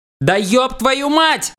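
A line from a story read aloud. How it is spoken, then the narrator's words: Yelling. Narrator (Russian): заорал я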